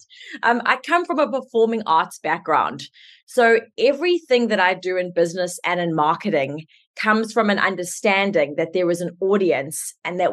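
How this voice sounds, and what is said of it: South African accent. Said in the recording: “I'm South African, so let's just start with my accent in case everyone's wondering what that is”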